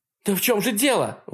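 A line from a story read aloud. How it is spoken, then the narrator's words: Indignant question. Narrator (Russian): возмущенно спрашивает Кристал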